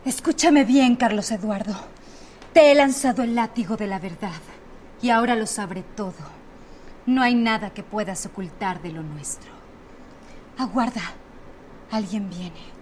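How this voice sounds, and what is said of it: Melodramatic soap-opera style delivery. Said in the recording (Spanish): “con menos acento de telenovela”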